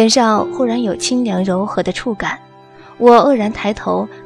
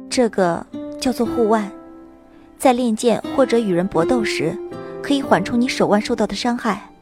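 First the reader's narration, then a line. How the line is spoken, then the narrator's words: Tender, gentle, teary. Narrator (Chinese): 心中充满了无法抑制的温暖和柔情，眼中水汽氤氲，嘴角勾起一抹清浅的笑容，柔声道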